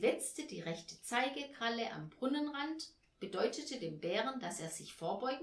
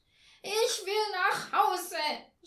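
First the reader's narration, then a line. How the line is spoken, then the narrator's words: Sobbing scream. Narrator (German): schrie Thomas Müller und schluchzte immer heftiger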